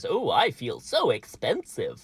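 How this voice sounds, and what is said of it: Daffy Duck cartoon voice impression. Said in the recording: “my Daffy Duck impression”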